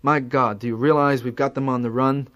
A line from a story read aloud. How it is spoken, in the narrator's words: He would laugh